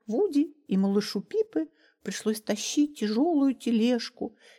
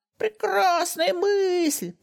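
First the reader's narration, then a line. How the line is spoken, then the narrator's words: Shouted by old women. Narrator (Russian): прокричали старые гномихи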